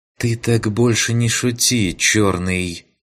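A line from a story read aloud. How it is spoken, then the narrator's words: Heavy sigh. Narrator (Russian): Тяжело вздохнув, покачала головой Ваеса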